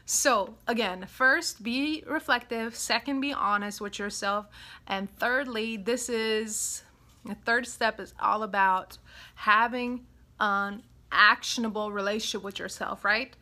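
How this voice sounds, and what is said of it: European accent. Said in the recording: “My European accent is kicking in.”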